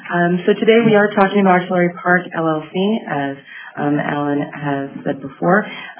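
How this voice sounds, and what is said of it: Hoarse voice. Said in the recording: “I'm a little under the weather, so I apologize for the hoarse voice”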